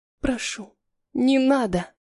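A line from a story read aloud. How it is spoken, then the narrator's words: Barely audible babble. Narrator (Russian): Лепечу еле слышно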